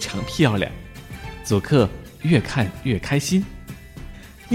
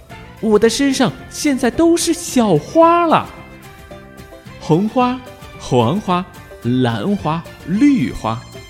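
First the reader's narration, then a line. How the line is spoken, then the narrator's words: Loud shout. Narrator (Chinese): 莱斯特大叫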